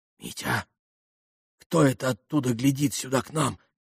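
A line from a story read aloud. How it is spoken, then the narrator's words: Sudden whisper. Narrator (Russian): прошептала она вдруг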